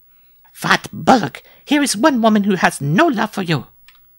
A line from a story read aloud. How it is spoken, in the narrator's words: cried Mademoiselle Lupa